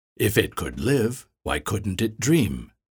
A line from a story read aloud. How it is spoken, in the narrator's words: Jacques said